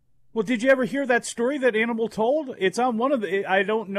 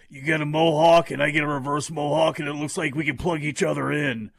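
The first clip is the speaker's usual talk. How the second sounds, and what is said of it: Imitates another person's voice. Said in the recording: “I'm not doing a very good Hawk impression there”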